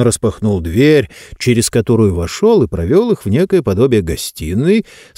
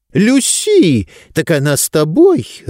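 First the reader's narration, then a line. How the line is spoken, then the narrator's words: Joyful exclamation. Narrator (Russian): радостно воскликнула Августа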